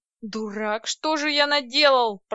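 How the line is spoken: Groaning. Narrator (Russian): простонал Владлен

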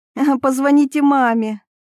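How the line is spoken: Giggling. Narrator (Russian): хихикнула она

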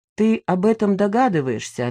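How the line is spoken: Plain. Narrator (Russian): ответил папа

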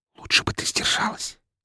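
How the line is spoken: Quiet whisper. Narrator (Russian): тихо шепнул я ей

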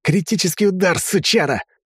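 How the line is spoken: Yelling. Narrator (Russian): заорал

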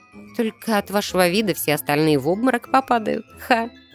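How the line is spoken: Laughing. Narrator (Russian): Рассмеялась, представив такую картину

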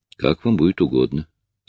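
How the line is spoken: Dry. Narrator (Russian): сухо ответил шериф

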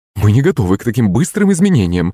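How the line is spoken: Flustered babbling, mother. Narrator (Russian): залепетала маман

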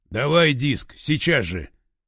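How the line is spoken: Barking. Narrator (Russian): рявкнул он

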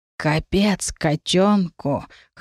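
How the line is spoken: Hoarse voice. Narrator (Russian): хрипло сказал Сигизмунд

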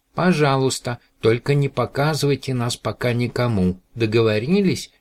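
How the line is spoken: Plain. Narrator (Russian): сказал Мананам

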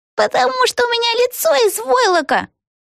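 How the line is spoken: Squeaky doll voice. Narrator (Russian): пискнула кукла Пегги

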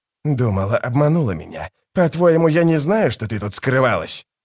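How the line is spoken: Snort. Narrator (Russian): Женщина фыркнула

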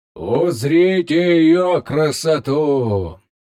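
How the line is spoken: Loud. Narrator (Russian): громко произнес

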